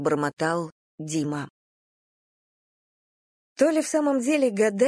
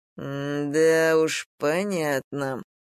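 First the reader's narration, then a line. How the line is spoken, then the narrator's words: Drawling. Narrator (Russian): протянул Дима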